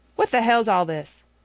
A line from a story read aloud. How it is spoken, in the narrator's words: He said sharply